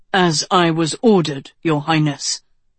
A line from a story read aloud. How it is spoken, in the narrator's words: Rian said stiffly